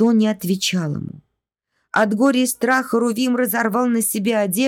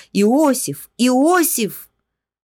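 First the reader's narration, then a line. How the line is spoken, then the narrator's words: Shouted. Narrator (Russian): Он закричал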